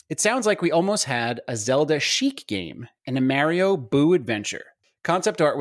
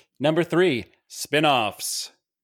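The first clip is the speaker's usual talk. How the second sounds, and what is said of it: Troy McClure impression. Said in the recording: “in my best Troy McClure voice”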